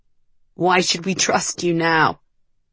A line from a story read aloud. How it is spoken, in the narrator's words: Merrick said, his voice rough and shaky